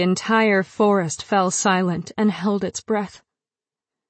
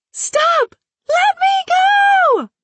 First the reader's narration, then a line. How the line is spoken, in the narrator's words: I was shouting the tear of it in my throat